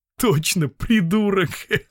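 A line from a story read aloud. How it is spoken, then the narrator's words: Speaking through laughter. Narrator (Russian): сказал сквозь смех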